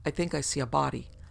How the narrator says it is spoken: the man on point exclaimed

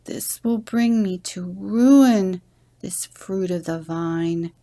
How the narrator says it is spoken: Hoshmakaka moaned to himself

